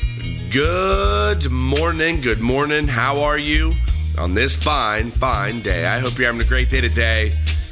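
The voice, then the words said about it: Sick, hoarse, fading voice. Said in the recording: “apologize for the voice, I'm sick, but getting over it ... I'm kind of losing my voice”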